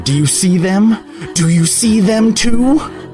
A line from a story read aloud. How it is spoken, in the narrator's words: the man began to scream at her